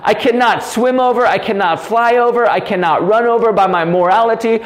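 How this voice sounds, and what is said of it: Yelling, loud passionate delivery. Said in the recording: “I'm yelling. ... I'm yelling. ... I'm so passionate about it.”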